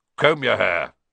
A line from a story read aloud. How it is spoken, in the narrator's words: barked